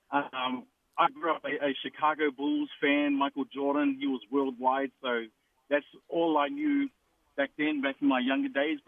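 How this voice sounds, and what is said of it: New Zealand accent. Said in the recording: “I apologize in advance for my accent. I'm originally from New Zealand.”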